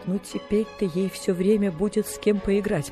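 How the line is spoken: Tearful. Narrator (Russian): проговорила сквозь слезы мисс Полли

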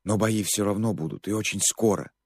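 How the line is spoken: Loud whisper. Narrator (Russian): громким шепотом произнес он

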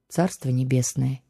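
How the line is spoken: Quiet, empress. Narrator (Russian): тихо произнесла императрица

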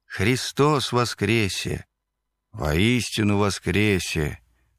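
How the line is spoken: Solemn group response. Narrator (Russian): Торжественно, словно на параде, отвечают известные прихожане

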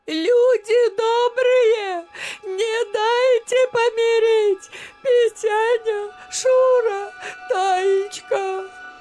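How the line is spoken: Stunned stammer, then shout. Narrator (Russian): Баба Дуня запнулась, словно ошеломленная, и закричала

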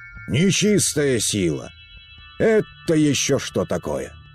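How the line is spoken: Roaring nobleman. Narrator (Russian): взревел барин

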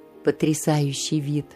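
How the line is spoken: Dreamy sigh. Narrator (Russian): мечтательно вздохнул впечатлительный месье Жильяр

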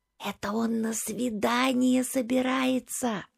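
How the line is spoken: Whisper. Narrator (Russian): шепнула всезнайка Зина

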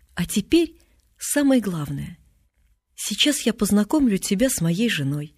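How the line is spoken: Solemn. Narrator (Russian): говорит торжественно

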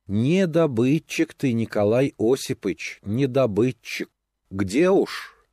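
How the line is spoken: Sad, old women speaking. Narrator (Russian): Старухи и бабы говорили печально

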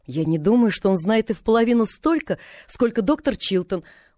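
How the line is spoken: Confident exclamation. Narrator (Russian): уверенно воскликнула Полианна

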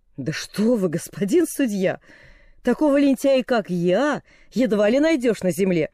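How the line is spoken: Exclamation. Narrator (Russian): воскликнул Доннелл

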